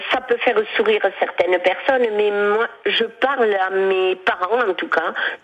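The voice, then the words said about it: Catalan-accented French. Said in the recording (French): “vous avez gardé un peu d'accent, hein ? ... Ah bah, oui, je le conserve. ... L'accent catalan.”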